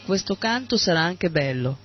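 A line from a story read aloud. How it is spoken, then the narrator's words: Plain. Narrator (Italian): disse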